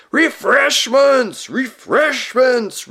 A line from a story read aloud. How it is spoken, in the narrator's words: roared the old man